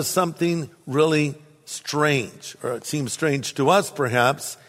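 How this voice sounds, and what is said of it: Usual voice. Nothing is said of it.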